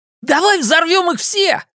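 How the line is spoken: Shouted with wild joy. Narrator (Russian): закричал Ричи вне себя от радости

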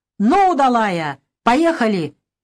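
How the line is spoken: Shout. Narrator (Russian): крикнул дядя Вася на лошадь

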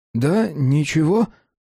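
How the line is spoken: Strained, forced out. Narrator (Russian): наконец выдавил Адам

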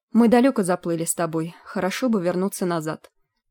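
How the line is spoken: Grumbling. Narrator (Russian): пробурчала Тангвен

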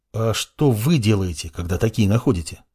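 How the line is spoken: Plain question. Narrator (Russian): спросил ученик

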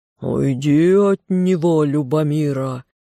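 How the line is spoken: Thunderous serpent's roar. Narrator (Russian): Голос змея прогремел так, что земля под ногами задрожала

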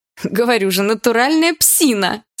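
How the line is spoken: Laughing woman. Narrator (Russian): Снова засмеялась подруга

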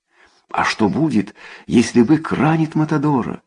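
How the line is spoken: Anxious, excited. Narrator (Russian): взволнованно спросила Миган

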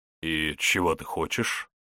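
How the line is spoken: Inquiring. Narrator (Russian): поинтересовался Илья Демидович

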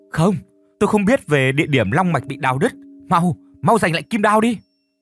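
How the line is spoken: Sudden scream. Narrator (Vietnamese): Ngay tức thì chị đã hét lên

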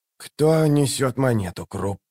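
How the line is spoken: Strangled hoarse rasp. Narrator (Russian): сдавленно прохрипел он

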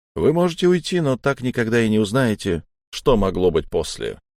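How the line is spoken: Calm. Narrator (Russian): сказал Кречетников спокойно

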